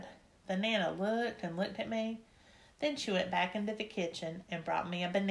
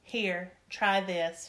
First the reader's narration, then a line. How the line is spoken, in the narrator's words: she said